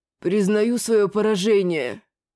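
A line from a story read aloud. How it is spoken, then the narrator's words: Muffled grumble. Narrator (Russian): глухо проворчал тот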